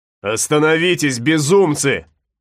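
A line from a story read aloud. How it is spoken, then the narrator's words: Shouting. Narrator (Russian): закричал Флорес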